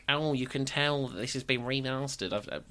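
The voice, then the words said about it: Imitates another person's voice. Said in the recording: “my impression of you there”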